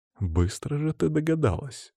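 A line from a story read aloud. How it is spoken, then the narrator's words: Sighing. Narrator (Russian): вздохнул я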